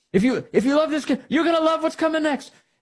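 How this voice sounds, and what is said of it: Made-up put-on accent. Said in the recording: “I'm making up an accent here.”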